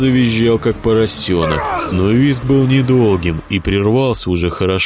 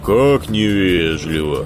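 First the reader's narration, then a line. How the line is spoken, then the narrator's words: Sighing. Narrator (Russian): вздохнул Николай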